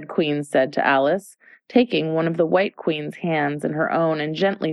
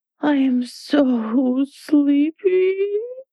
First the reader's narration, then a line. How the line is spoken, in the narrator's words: she moaned